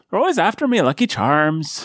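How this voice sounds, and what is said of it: Put-on Irish accent. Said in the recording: “my entirely authentic Irish brogue ... I'm a master of voices and accents”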